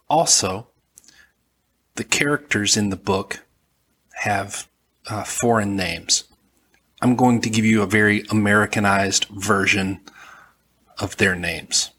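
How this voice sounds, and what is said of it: Southern American accent. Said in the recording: “I'm from Alabama, and I have a southern accent.”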